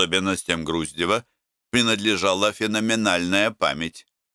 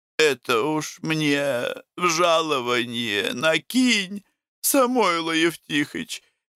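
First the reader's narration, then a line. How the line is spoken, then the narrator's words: Sad. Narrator (Russian): печально проговорила Рачителиха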